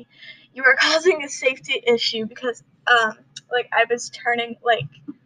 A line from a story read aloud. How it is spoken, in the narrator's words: he yells at me